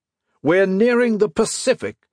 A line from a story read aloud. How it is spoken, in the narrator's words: he shouted finally